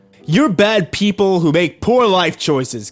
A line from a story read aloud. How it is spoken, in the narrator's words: Kyle yelled at them